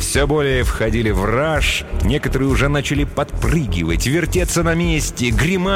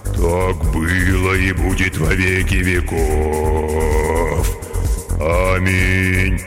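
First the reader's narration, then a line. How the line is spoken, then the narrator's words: Rich bass singing. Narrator (Russian): самый толстый солист выводя сочным басом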